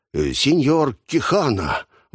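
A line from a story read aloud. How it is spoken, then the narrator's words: Exclamation. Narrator (Russian): воскликнул он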